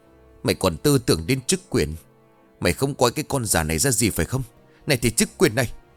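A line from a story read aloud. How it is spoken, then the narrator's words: Hissing through teeth. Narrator (Vietnamese): Mụ Tránh rít lên qua kẽ răng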